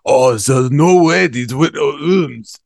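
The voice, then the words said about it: Exaggerated fake French accent. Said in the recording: “how would Blanche say that in her accent? ... That's the only accent. All I can do is the guy from the Foot Clan from the first Teenage Mutant Ninja Turtles movie ... the chef from Little Mermaid ... Some sort of weird French thing”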